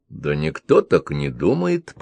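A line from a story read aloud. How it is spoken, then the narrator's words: Mutter. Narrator (Russian): пробормотал Константинов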